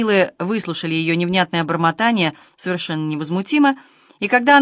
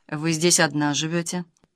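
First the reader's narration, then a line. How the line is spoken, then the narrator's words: Quiet question. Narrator (Russian): один из них спросил, также негромко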